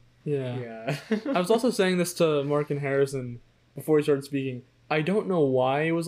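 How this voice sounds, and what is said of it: Usual voice. Nothing is said of it.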